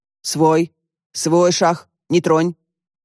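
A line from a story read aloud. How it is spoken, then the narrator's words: Stern. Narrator (Russian): Григорий строго сказал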